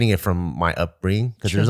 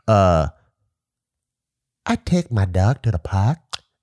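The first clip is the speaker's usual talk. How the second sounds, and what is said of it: Proper Vietnamese accent. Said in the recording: “there's also like a very proper Vietnamese accent”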